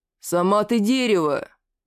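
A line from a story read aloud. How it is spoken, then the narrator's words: Indignant growl. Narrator (Russian): возмущенно рыкнул Верзила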